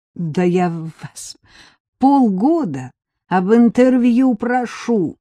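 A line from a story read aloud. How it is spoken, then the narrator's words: Moaning. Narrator (Russian): застонала Вика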